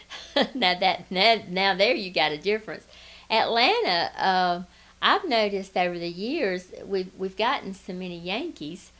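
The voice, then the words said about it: Southern US accent. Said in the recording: “I haven't lost mine, and never will”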